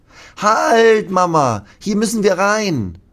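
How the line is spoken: Calling out. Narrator (German): ruft Lasse

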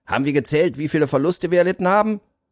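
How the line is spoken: Calling out to group. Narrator (German): rief er in die Runde

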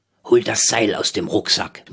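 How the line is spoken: Murmuring. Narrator (German): murmelte Rolf

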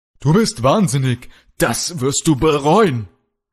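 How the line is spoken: Shouting in fight. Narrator (German): schrie Kalle, als er Kralle endlich wieder im Kampf gegenüberstand

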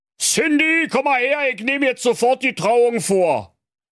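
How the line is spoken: Calling out. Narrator (German): rief

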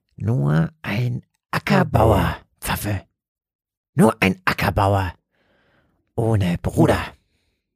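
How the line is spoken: Hissed. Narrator (German): zischte

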